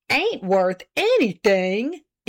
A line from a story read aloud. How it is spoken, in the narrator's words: exclaimed Mr